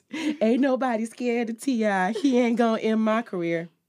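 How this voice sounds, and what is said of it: Imitates another person's voice. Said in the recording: “I'm going to try to do my best Kodak voice.”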